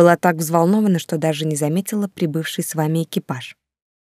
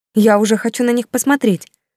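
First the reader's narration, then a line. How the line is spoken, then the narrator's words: Exclaimed. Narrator (Russian): воскликнула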